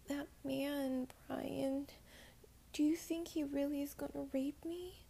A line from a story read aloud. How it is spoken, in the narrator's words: said in a quivering voice